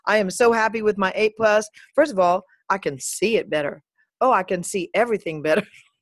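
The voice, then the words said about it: Put-on Southern American accent. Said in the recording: “I don't know why I have this Southern accent all of a sudden”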